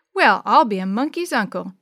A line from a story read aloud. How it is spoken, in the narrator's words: began to laugh with them